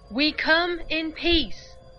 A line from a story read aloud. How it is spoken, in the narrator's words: Chan shouted loudly